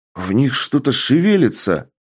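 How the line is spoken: Exclaiming. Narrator (Russian): воскликнул один из глазастых

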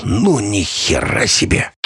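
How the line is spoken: Hoarse exclamation. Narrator (Russian): Ростик хрипло воскликнул

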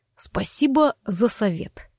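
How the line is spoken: Through gritted teeth. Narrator (Russian): процедил Форест

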